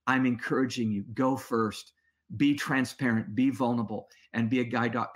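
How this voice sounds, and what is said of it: Choked-up, emotional voice. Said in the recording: “I'm getting a little choked up here”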